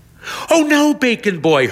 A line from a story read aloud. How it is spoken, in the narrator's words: Hermione Harrow exclaims